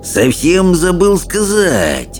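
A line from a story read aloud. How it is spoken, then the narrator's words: Silky purr. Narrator (Russian): шелковым голосом промурлыкал Элвин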